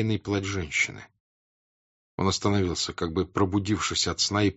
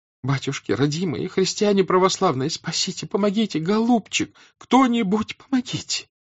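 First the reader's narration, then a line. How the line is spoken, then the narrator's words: Sobbing woman. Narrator (Russian): выговаривала она сквозь рыдание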